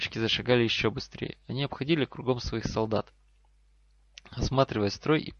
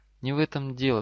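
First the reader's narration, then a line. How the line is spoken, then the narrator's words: Trembling female voice. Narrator (Russian): дрогнувшим голосом ответила Гермиона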